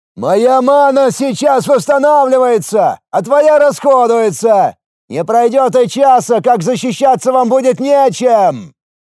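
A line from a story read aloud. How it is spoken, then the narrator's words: Booming voice from wall. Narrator (Russian): Вновь прогремел голос со стены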